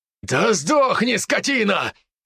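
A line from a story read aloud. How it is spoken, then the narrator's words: Man shouting. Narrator (Russian): кричал мужчина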